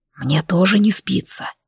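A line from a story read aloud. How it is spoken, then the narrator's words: Low dragon whisper. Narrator (Russian): низким шепотом проговорил дракон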